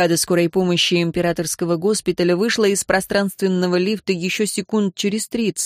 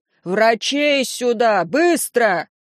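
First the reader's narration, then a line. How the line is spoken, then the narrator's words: Yelled. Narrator (Russian): Дайт заорал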